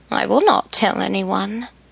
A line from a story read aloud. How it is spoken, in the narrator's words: replied with a chuckle